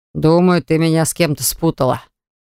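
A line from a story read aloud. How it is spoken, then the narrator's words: Confident voice. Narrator (Russian): проговорил уверенным голосом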